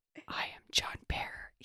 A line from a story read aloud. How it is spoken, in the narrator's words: he said softly, as if beginning an incantation, as if he were an emperor reminding his subject who he was